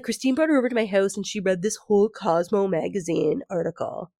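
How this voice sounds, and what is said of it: Mocking put-on character voice. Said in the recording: “Now I'm doing like Michael because I'm doing a voice”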